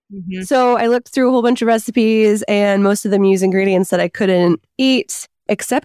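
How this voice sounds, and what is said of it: Sick-sounding, low-energy voice. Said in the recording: “I'm recovering from COVID right now, so you can probably hear that in my voice. ... I have like zero energy”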